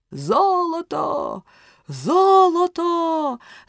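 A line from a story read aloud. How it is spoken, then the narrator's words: Group shouting. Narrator (Ukrainian): закричали вони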